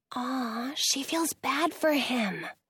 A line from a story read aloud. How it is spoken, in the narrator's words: I whisper